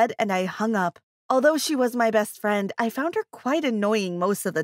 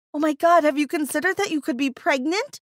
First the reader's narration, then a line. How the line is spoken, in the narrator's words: gasped